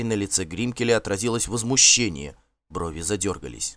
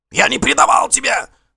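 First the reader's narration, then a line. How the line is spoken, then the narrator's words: Wailed loudly. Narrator (Russian): завопил Гринкель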